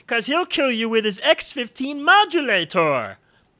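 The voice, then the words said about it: Imitates a cartoon Martian's voice. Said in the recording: “my little Bugs Bunny Martian shirt ... That's my imitation of that guy. If you remember that cartoon, how funny was this guy?”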